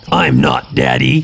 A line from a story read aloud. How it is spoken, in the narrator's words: he growled